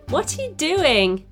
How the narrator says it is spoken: she laughed

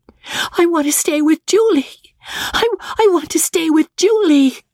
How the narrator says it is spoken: wailed Magnolia, overwrought, as the inexorable hand dragged her up the stairs

